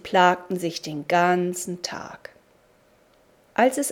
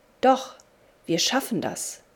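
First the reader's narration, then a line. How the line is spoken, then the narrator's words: Plain. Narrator (German): sagte der andere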